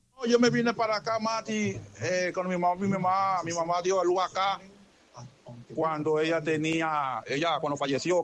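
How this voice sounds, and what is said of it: Dominican Spanish accent. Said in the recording (Spanish): “¿Por qué tú hablas como dominicano entonces?”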